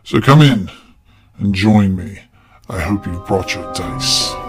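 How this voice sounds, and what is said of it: Spooky voice. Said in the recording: “He likes my spooky voice intros”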